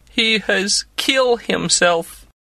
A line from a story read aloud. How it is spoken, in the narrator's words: she said mournfully